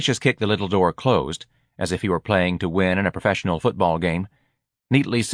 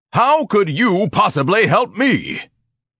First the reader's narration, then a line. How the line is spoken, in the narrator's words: Ignatius bellowed